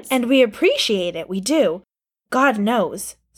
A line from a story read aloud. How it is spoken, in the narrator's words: Steve had said